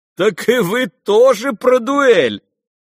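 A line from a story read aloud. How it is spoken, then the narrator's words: Sudden loud laughter. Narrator (Russian): захохотал вдруг князь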